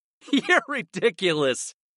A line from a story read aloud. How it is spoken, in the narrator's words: I laughed